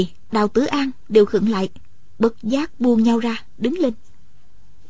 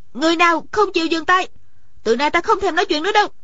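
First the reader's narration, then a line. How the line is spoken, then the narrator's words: Suddenly raised voice. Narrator (Vietnamese): Điền Thanh Văn bỗng cao giọng nói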